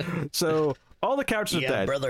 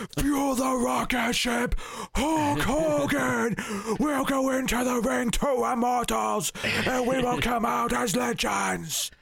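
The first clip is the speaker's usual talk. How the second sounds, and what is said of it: Imitates a wrestler's voice. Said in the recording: “I could do an okay Ultimate Warrior. Ultimate Warrior's easier. ... That's Ultimate Warrior.”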